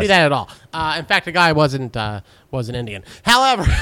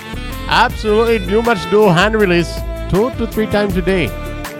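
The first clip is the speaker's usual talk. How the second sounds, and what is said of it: Imitated Indian accent. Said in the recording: “I don't do a very good impression of anything else, so he has Indian in his story... That was his Arbutus accent.”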